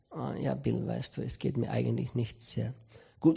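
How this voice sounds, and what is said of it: Dejected, downcast voice. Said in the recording (German): “Du klingst irgendwie so bedrückt.”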